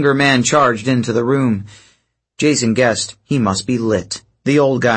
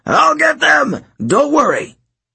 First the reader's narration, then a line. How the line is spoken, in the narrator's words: Hedge was screaming